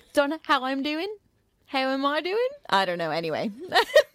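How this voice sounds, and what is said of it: Attempted Australian accent. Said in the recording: “everyone's got an Australian accent, so it's hard to not kind of have it in my head... I think I do much better than I actually do.”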